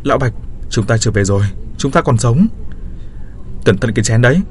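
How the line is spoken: Agitated shout. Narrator (Vietnamese): Tôi kích động hét lên

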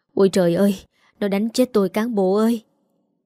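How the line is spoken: Moaning, wailing. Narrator (Vietnamese): Bà rên rỉ

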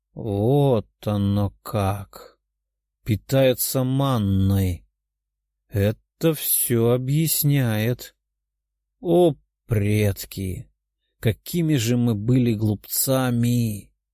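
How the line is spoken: Weary sigh. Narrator (Russian): Мужчина устало вздохнул

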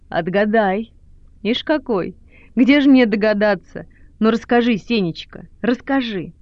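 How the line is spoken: Laughing. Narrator (Russian): Она, смеясь

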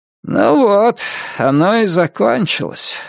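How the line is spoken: Smoky hoarse voice. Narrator (Russian): сказала тетя Эви прокуренным голосом

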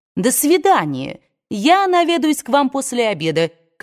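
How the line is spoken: Calling out. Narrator (Russian): крикнула миссис Смит

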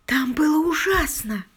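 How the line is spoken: Whisper. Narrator (Russian): прошептала

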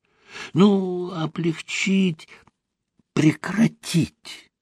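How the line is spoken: Whispering. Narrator (Russian): шепотом заговорил Лаврентий

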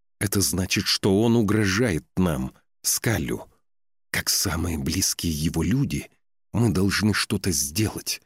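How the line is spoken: Confident whisper. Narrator (Russian): уверенно прошептала Ула

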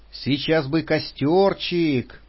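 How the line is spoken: Dreamy shivering drawl. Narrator (Russian): мечтательно протянула Патрушева, дрожа от холода

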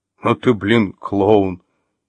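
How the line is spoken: Monster's hoarse laugh. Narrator (Russian): хрипло хохотнул монстр

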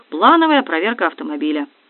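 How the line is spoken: Young man answering. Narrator (Russian): Довольно молодой парень ответил

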